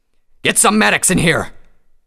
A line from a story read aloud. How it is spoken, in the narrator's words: Tirado roared